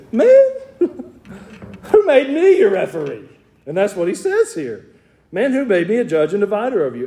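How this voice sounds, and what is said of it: Southern US accent. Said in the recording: “my southern dialect”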